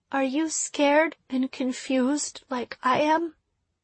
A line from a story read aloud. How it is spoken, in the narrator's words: Her voice was as small as I'd ever heard it